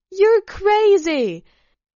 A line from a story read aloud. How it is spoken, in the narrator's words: Alyssa shouted, and suddenly she too laughed mischievously